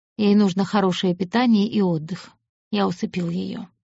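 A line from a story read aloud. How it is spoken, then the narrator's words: Calm. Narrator (Russian): спокойно сказал Анакин Аиду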